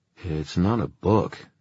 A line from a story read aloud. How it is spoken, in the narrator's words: Julian said in a slightly odd voice